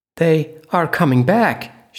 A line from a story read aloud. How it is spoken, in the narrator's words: she exclaimed